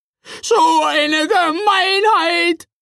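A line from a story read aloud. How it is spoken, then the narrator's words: Screaming. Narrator (German): schrie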